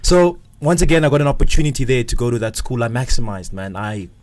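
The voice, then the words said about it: South African 'schwaka' private-school accent. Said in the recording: “You got the schwaka brew... It's the schwaka accent.”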